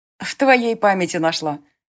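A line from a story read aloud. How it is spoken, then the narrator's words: Laughing. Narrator (Russian): засмеялась Илия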